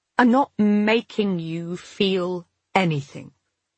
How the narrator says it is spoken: said, trying to keep my voice even

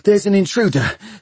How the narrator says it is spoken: panted Bevis

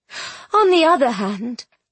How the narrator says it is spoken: Pater Lumley chuckled

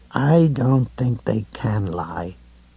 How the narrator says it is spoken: he said slowly

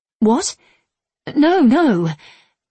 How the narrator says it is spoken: she said, her voice distressed

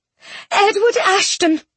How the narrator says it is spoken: Penelope blurted

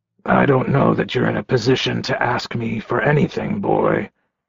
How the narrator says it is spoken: Richard growled

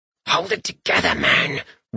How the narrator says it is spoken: Rorik hissed with the small amount of air left in his lungs

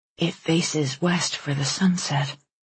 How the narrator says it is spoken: Alice murmured

